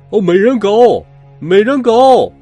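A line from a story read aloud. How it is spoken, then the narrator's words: Shouting. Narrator (Chinese): 格林先生喊道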